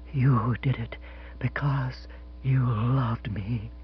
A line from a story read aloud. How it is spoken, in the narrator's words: she said in a low, vibrant whisper